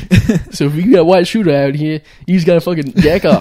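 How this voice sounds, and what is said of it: Put-on accent drifting Southern. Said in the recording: “My black accent turns southern so fast.”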